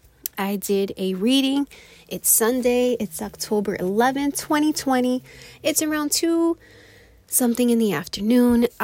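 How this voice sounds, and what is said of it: Out of breath. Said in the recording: “little out of breath. I just ran up the stairs.”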